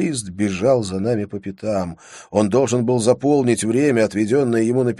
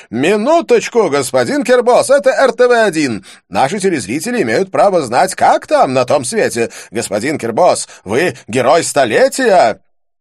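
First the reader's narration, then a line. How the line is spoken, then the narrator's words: TV host shouting. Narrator (Russian): Телеведущий РТВ-1 кричал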